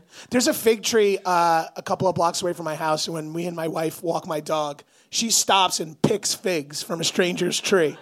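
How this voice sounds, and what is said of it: Hoarse, weak, nearly lost voice. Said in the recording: “That's what my voice sounds like now... I'm still hungover and still don't have a voice”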